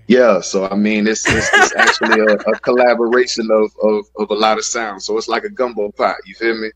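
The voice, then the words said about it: Miami, Florida twang. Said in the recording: “You definitely got that Miami, Florida twang with you.”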